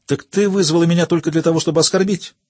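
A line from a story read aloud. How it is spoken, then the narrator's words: Indignant exclamation. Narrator (Russian): воскликнула Анна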